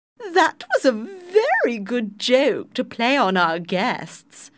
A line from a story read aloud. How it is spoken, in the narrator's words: said, and laughed loudly